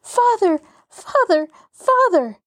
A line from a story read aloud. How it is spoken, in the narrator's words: Mary and Jean clung wildly to the third gentleman, crying